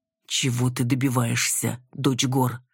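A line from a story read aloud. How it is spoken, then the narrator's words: Breathed softly, close. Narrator (Russian): Выдохнул Рен мне в волосы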